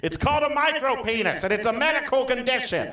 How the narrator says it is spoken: Donald shouted

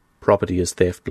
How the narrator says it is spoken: laughed

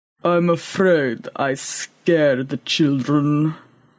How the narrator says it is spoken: rumbled Boaz

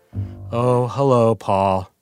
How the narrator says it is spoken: she said in her Eeyore voice

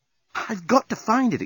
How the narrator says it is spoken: exclaimed Nettie

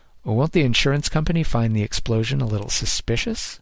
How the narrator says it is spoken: Grossman chuckled again

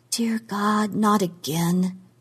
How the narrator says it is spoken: she said in a low voice

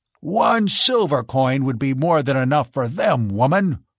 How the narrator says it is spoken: snapped Carl

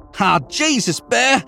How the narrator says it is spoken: I shouted over the crashing

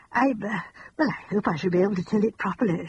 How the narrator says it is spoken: she said anxiously

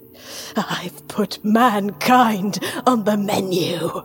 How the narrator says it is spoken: rasped

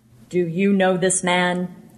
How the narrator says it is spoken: he said in a deep voice

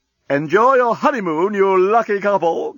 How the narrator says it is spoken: called the doorbot cheerfully

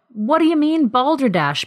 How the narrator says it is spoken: Bill exclaimed

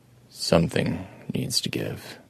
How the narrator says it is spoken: Adam told it quietly

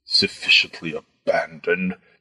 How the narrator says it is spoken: the fat man muttered

